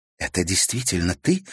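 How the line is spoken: Horrified gasp. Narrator (Russian): в ужасе выдохнула Елена Федоровна

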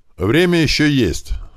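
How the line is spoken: Loud. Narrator (Russian): громко сказал Туман

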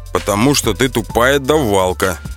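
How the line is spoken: Chuckling. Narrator (Russian): хохотнул Иванов

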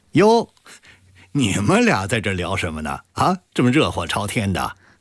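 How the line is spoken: Laughing. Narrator (Chinese): 明航笑着说

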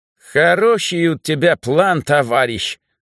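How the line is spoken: Said with Caucasian accent. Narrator (Russian): с кавказским акцентом произнес Митька

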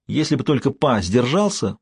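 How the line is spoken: Exclamation. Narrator (Russian): воскликнул я

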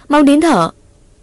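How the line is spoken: Loud shout. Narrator (Vietnamese): Ngọc hét lớn

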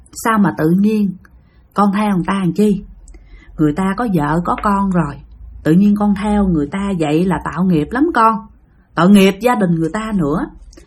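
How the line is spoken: Gentle question. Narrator (Vietnamese): Bà dịu dàng, bà hỏi rằng

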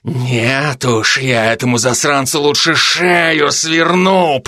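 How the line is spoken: Growled reply. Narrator (Russian): прорычала в ответ

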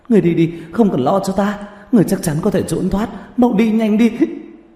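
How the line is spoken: Crying scream. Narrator (Vietnamese): khóc thét lên

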